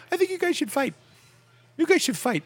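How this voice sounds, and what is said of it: Imitates another person's voice. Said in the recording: “terrible Apatow impression. It's actually it's reasonable.”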